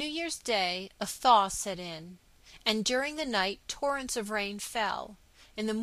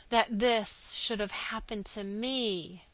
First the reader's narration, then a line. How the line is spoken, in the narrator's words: he groaned